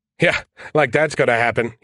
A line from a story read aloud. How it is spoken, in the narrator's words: he chuckled